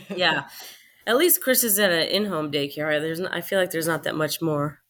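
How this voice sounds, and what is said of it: Sick, weird-sounding voice. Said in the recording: “I'm a little sick. So if my voice sounds weird or if I'm coughing”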